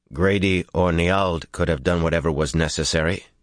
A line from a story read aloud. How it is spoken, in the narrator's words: he said in a flat voice